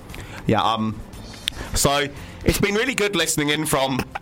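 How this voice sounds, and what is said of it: Weak put-on Australian accent. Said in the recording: “I can't even do this accent ... In the capital city of Australia”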